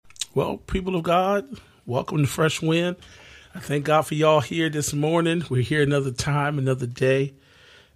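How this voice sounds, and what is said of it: Voice not fully recovered, strained. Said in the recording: “My voice is not back to 100%.”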